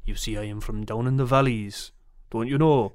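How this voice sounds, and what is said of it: Put-on Welsh accent, slightly Scottish. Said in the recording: “Give us 2 seconds of Welsh impersonation ... That was bad ... It was really not bad ... It was a little Scottish at the start, but then you kind of eased into it a little bit”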